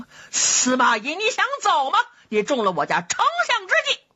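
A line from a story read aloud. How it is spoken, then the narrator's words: Loud shout. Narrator (Chinese): 姜维高声喊嚷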